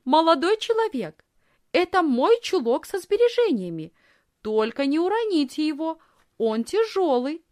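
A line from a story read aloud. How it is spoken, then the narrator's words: Loud speech. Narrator (Russian): Но Лисхин громко сказала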